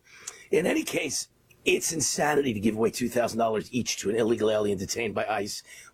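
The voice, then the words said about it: Hoarse, strained voice. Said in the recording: “I'm trying to nurse my lousy voice here ... I'm losing my voice even more than I lose it Monday through Friday.”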